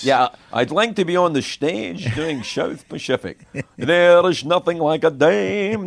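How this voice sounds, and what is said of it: Imitates a Scottish man's voice. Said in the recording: “that an easier impression to do for you because you're Scottish?”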